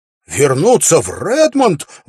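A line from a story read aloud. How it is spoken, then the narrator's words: Exclaimed. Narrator (Russian): воскликнул Уилл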